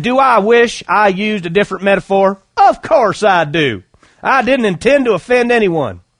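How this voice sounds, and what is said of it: Put-on Southern American accent. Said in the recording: “I like doing the southern accent”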